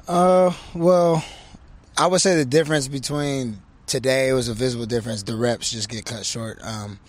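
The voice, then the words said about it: Naturally raspy voice. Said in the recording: “My voice is kind of raspy like normal ... Where do you get the raspy voice from?”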